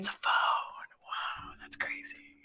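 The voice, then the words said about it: Whispering. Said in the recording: “your whispering”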